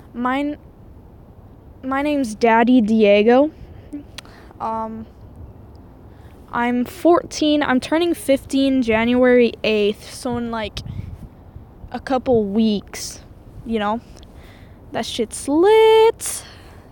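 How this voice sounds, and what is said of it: French-Canadian accent, some stuttering. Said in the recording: “I'm actually French-Canadian, so that's why my English is terrible and I keep stuttering.”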